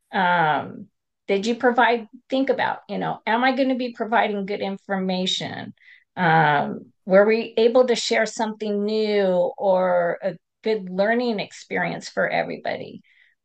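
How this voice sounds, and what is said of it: Strained, fading voice. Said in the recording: “my voice is going out a little bit”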